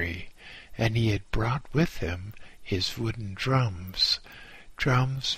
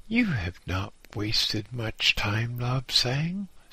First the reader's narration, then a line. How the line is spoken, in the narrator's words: said cheerfully